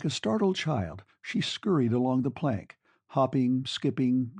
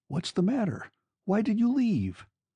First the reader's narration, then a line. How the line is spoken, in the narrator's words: queried anxiously